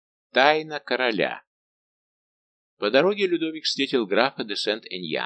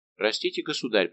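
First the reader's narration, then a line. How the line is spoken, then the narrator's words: Mumble. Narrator (Russian): пробормотал Сент-Эньян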